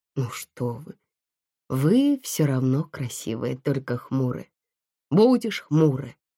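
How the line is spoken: Sighing. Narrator (Russian): вздохнула она

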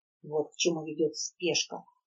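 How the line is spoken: Muttered under breath. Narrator (Russian): пробормотала она себе под нос

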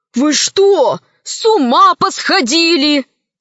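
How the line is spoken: Loud question. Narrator (Russian): Вага громко спросил

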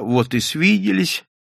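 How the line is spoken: Unfamiliar, trembling voice. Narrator (Russian): сказал незнакомым, дрогнувшим голосом

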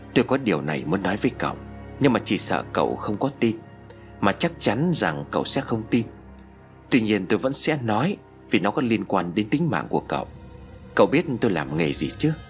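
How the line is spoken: Soft sighing reply. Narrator (Vietnamese): Thầy Tẩu thở dài rồi khẽ đáp

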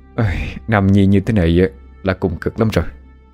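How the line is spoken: Sighing. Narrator (Vietnamese): Vua thở dài nói

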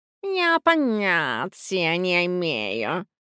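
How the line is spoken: Purring cat reply. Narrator (Russian): промурлыкал в ответ чеширский кот

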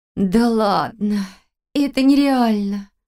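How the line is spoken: Groaning. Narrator (Russian): простонала Валерия

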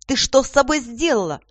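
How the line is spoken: Screaming. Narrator (Russian): завопила она

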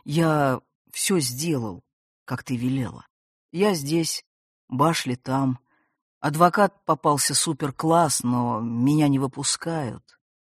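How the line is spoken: Frightened stammering. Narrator (Russian): от страха покрывшись мгновенным жгучим холодом, он, запинаясь на каждом слове, продолжал

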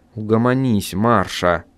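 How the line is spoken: Soft, gentle. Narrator (Russian): сказал агент мягко

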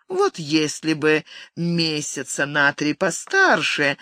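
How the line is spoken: Laughing. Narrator (Russian): смеясь, продолжила Венера

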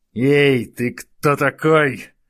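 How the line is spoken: Guard growling. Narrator (Russian): зарычал на него охранник

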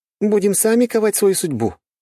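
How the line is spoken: Exclaimed. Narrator (Russian): воскликнула блондинка

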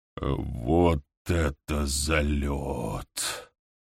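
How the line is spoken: Stunned whisper. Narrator (Russian): прошептал нарком

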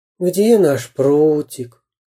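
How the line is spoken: Sighed. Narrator (Russian): вздохнул Карандаш

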